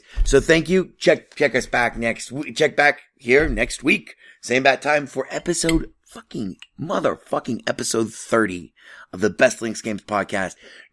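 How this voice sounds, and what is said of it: Strained, fading voice. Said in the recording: “I'm totally losing my voice.”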